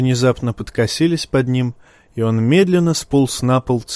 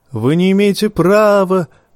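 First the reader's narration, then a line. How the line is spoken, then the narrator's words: Shouting. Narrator (Russian): крикнул узник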